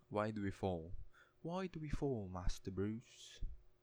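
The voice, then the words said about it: Put-on English accent. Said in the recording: “That's my best attempt at an English accent.”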